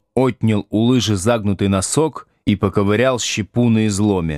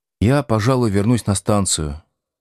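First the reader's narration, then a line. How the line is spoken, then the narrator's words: Dead, lifeless voice. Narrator (Russian): мертвым голосом сказал Овечкин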